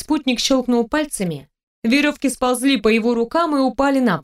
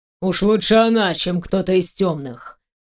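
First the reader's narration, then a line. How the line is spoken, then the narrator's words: Muttered through clenched teeth. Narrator (Russian): процедил сквозь зубы Диарден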